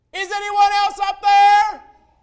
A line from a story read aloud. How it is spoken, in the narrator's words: the man yelled back up again